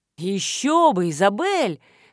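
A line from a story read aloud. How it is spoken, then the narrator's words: Urge to shout. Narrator (Russian): хотелось крикнуть мне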